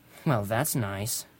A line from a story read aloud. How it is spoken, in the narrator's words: I grumbled